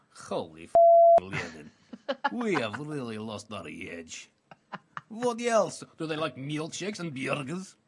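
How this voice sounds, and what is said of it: Convincing put-on Russian accent. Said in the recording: “Slightly Russian too ... That's slightly too good. I mean, that's a rock-solid Russian accent.”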